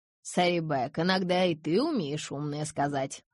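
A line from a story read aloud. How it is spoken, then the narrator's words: Snorting. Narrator (Russian): хмыкнула Нани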